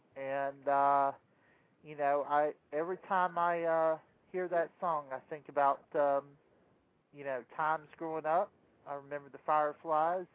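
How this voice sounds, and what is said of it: Southern US country accent. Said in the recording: “you can probably hear my country accent coming out”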